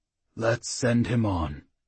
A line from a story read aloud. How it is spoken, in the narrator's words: the claymaster said quietly